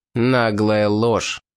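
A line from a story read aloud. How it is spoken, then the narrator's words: Through clenched teeth. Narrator (Russian): процедил сквозь зубы колонист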